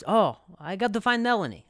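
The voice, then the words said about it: Put-on accent imitating another person. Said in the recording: “That's a really good accent”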